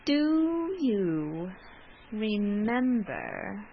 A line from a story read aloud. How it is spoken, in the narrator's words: He spoke slowly and with an effort